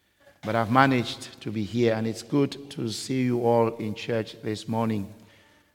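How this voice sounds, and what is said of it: Voice sounds ill. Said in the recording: “For 2 weeks now, I have been under the weather. You can hear that from my voice.”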